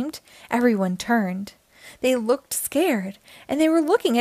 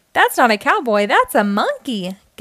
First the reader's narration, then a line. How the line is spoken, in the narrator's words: giggled the princess